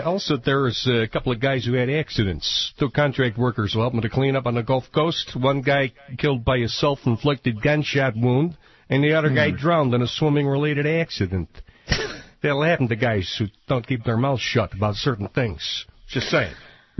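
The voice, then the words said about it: Chicago guy accent impression. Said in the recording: “The accent kills me ... the Chicago guy impression”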